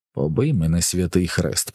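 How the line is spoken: Whisper. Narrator (Ukrainian): прошепотів Гаул

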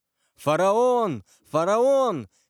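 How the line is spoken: Crowd shouting. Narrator (Russian): кричали все

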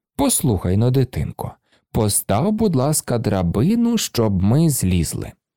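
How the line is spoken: Gentle voice. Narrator (Ukrainian): один сказав лагідним голосом

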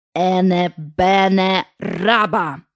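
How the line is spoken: Slow recitation. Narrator (Ukrainian): Вона повільно проказала

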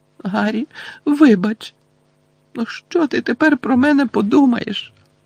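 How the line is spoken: Moaning, trembling voice. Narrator (Ukrainian): простогнала вона тремтячим голосом

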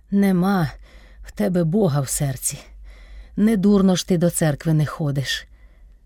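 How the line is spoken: Strained, groaning speech. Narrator (Ukrainian): через силу вимовив Кайдаш та все стогнав

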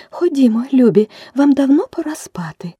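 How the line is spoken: Trembling bird's call. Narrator (Ukrainian): канарка покликала своїх діток тремтливим голосом

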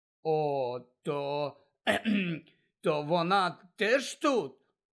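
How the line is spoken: Hoarse croak. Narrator (Ukrainian): прохрипів Гаррі

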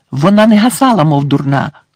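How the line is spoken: Exclaiming. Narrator (Ukrainian): вигукнула Герміона

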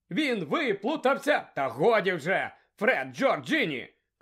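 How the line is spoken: Shouted. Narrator (Ukrainian): крикнула місіс Візлі

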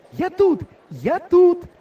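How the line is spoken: Girl shouting while running. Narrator (Ukrainian): Біжучи, закричала дівчина

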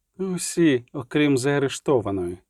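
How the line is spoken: Quiet. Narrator (Ukrainian): сказав тихо Регіс

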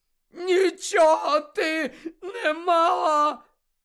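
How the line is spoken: Roaring. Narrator (Ukrainian): заревів Невіл

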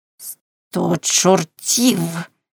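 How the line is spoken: Hoarse cursing. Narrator (Ukrainian): хрипко вилаявся Каузак

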